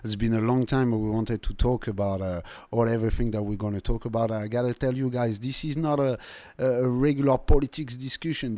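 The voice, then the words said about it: Thick accent. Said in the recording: “The accent is thick”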